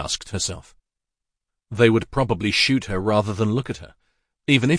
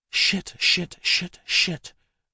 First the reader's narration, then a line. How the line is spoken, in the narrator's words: mumbled as she ducked and crawled away from the window as fast as she could